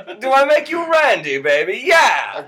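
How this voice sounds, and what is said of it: Weak Austin Powers character impression. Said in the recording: “your best Austin Powers impression ... It's not good. It's not good.”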